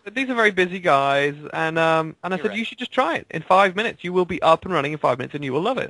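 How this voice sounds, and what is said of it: British accent. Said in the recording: “I'm from the UK, as you may have picked up from the accent”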